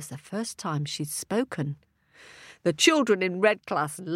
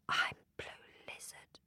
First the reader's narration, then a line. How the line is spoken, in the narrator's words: whispered